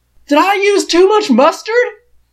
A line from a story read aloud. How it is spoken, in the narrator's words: Biddy says loudly